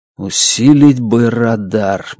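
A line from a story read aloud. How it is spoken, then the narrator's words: Mutter. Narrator (Russian): бормочу я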